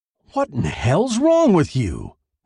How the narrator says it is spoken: he asked indignantly

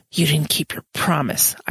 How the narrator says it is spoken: I hissed

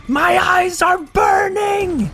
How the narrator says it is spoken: He's screaming

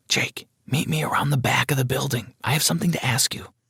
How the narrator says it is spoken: Carly whispered in my ear

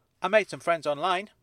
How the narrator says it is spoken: he said brightly

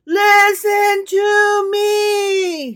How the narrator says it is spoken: he shouts

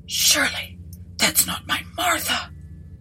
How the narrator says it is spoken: whispered Landlord

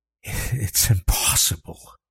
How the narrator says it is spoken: he breathed

